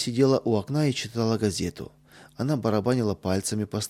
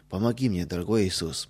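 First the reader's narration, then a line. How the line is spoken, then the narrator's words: Whisper. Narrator (Russian): прошептал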